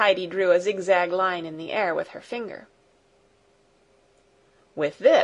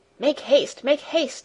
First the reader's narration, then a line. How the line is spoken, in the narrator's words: he cried in a hurried voice